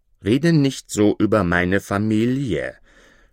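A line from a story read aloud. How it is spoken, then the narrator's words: Indignant exclamation. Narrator (German): rief empört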